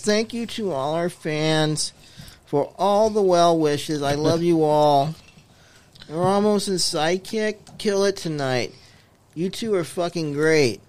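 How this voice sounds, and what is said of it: Whiny imitation of another person's voice. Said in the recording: “do his voice... Do it in the whiny voice... Sounds like him.”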